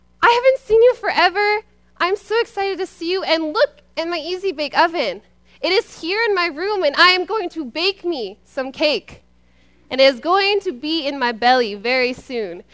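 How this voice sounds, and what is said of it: Excited, screaming child's voice. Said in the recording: “you're screaming and you're all excited”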